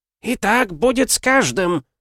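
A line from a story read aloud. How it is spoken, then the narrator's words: Hoarse shout. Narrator (Russian): прокричала хриплым голосом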